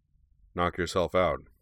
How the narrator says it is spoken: he replied dryly

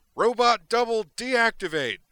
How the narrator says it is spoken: He shouted

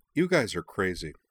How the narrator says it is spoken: said

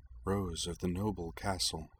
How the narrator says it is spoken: Anthy murmured

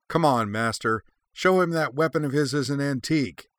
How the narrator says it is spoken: Anakin Skywalker screamed, still smarting from his last drubbing at Shuten's hands

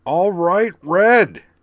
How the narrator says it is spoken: Blaster yelled

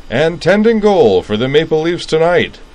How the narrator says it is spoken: cried the PA announcer

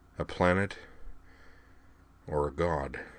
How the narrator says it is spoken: Griffin said softly, his voice full of dread

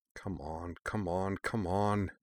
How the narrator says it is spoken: Shirley muttered

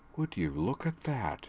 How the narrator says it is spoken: Daystrom murmured

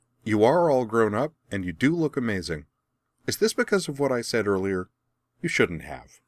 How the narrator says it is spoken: grinning brightly, she added

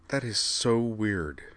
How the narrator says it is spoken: Utena murmured

